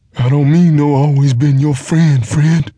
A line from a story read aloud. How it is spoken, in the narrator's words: whined angrily